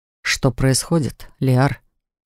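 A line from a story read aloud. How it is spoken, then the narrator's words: Quiet question. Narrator (Russian): Тихо спросил мужчина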